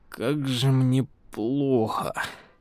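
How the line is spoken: Moaning. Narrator (Russian): простонал Дэн

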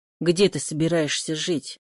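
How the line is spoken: Angry question. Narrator (Russian): Все так же сердито спросил

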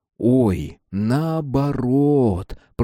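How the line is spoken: Drawled. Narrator (Russian): протянул Костик

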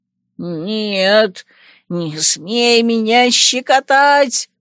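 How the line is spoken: Shrill howl. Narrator (Russian): Истошно взвыл Шейри

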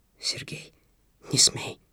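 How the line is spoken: Trembling whisper. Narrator (Russian): зашептал он дрожащим голосом

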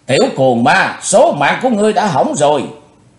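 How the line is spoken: Furious roar. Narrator (Vietnamese): bà ta càng thêm giận dữ rống to

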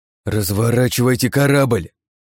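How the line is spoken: Breathed, then yelled. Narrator (Russian): выдохнул я в ухо Коннери и, не выдержав, заорал

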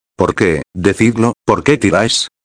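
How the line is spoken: Plain question. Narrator (Spanish): preguntó

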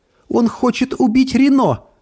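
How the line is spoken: Sobbing. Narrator (Russian): всхлипнула Эльса

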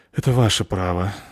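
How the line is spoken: Muffled sigh. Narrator (Russian): вздохнул в маску лодочник

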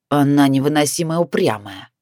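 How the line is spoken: Cold, irritated remark. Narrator (Russian): холодно заметил Ник, злясь, что вынужден слушаться Витора

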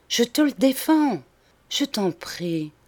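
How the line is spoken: Soft, sad. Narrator (French): ajouta-t-elle doucement et tristement

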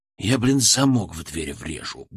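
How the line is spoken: Grumbling mutter. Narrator (Russian): буркнул ему

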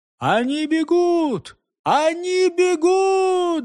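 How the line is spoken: Crowd shouting. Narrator (Russian): закричали англичане

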